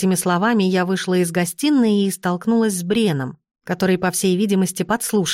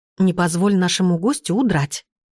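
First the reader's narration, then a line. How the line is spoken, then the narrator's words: Whisper. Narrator (Russian): шепотом сказала я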